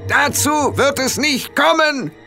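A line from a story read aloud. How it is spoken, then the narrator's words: Sudden shout. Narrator (German): rief Rob irgendwer so plötzlich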